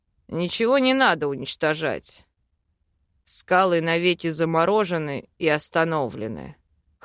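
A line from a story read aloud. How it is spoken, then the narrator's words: Hmph. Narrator (Russian): Хмыкнул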